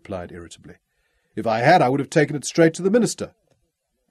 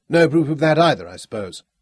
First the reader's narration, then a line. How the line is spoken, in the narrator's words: Jonathan asked dryly